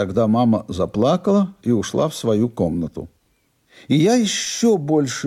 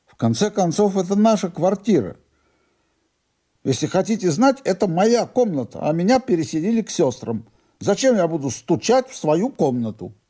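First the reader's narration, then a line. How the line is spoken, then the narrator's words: Grandfather shouting. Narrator (Russian): Дедушка закричал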